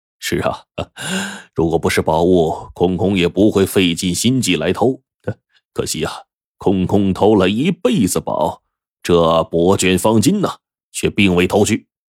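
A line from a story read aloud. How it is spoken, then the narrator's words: Smiling, pleased. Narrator (Chinese): 陈福龙笑眯眯的说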